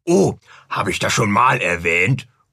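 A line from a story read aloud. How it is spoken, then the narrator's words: Murmured. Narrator (German): murmelte Nathanael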